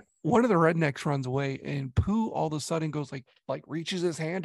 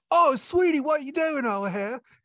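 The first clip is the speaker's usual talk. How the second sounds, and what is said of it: British-tinged American redneck accent. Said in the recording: “the most Britishy rednecky accent”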